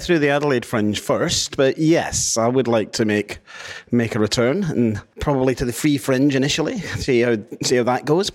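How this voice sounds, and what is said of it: Hybrid Scottish-Australian accent. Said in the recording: “apparently I've lost my Scottish accent and I've turned all Australian... you got a bit of a hybrid accent”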